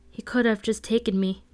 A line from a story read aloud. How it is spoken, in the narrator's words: Bitter Blue said, her voice breaking with sudden shrillness